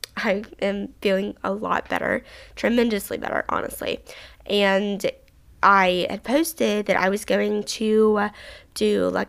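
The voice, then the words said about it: Slightly hoarse but energetic voice. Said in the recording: “my voice is still a little bit like hoarse, a little bit um, kind of, I wouldn't say weak because it doesn't sound weak. It sounds very energetic ... my breathing and stuff is a little weird”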